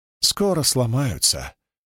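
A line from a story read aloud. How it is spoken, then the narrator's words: Quiet. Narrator (Russian): тихо сказал Норка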